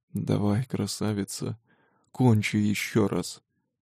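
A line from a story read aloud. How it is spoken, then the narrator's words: Hoarse rasp. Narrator (Russian): хрипит шеф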